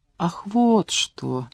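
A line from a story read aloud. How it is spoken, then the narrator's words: Quiet. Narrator (Russian): негромко произнес он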